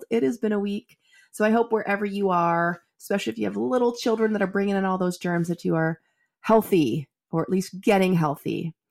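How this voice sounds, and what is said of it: Congested voice from a cold. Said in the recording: “as you might be able to hear in my voice, I am just getting over a head cold.”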